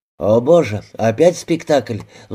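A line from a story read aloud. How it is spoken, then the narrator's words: Sighing. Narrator (Russian): вздохнул инспектор Аллен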